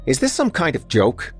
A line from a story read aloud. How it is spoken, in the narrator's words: Chadwick asked angrily